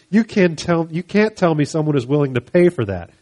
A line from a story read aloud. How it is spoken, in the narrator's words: exclaimed Sandra